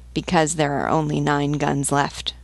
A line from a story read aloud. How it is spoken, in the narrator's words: murmured the captain